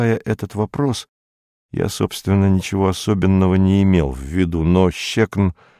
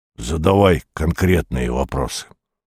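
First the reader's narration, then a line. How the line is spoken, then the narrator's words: Indistinct grumble. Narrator (Russian): проворчал невнятно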